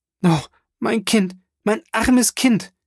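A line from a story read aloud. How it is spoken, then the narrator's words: Baroness crying out, muffled sobs. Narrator (German): rief die Baronin auf ihren Stuhl zurücksinkend und ihr Schluchzen in ihrem Taschentuch erstickend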